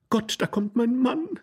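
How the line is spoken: Horrified cry. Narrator (German): rief die Dame entsetzt

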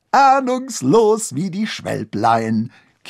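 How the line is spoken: Giggling. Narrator (German): kicherte Strupp Struppart

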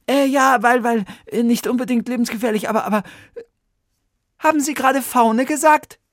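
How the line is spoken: Excited call. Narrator (German): rief Oliver aufgeregt

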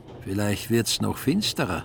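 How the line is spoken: Plain. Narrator (German): sagte der Mann

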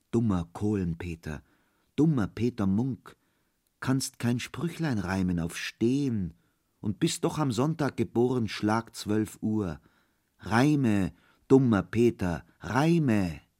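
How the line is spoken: Soft whispering voice. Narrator (German): eine zarte Stimme flüsterte

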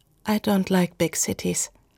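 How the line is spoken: Soft, friendly reply. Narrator (German): Sie antwortete leise und freundlich

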